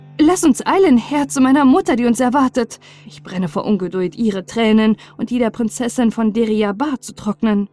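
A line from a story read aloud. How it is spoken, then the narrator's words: Delighted exclamation. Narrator (German): Entzückt rief er aus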